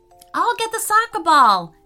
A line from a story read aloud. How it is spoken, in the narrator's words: shouted Laith